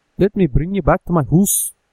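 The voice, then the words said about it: Put-on accent that sounds Irish. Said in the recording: “You still sound Irish.”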